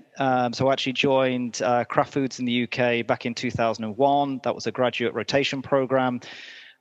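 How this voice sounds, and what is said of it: British accent. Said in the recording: “As you can probably tell from the accent, I'm originally from the UK.”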